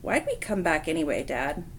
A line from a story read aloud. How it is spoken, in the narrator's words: Paul sighed